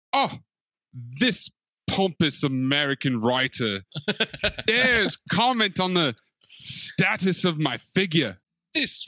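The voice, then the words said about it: Put-on British accent. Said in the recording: “a funny British accent ... can you do the British accent”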